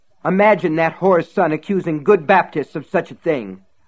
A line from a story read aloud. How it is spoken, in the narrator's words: Reverend Rose had spat